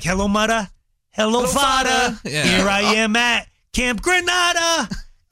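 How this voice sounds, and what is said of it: Put-on Italian-sounding accent while singing. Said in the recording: “an Italian accent ... like written by this New York kid”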